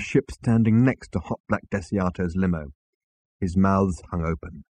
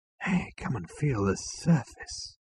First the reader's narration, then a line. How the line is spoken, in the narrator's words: he said in a hushed voice